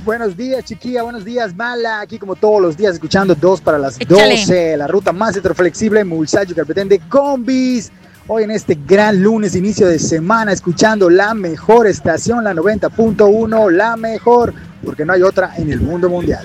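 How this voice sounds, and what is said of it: Radio announcer voice. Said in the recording (Spanish): “¡Hasta con voz de locutor!”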